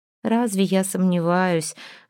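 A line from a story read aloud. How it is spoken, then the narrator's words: Tired smirk. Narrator (Russian): Альдона устало усмехнулась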